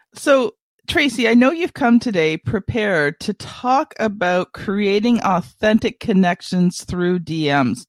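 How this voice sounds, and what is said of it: Voice with a head cold. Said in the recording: “I've got a bit of a cold”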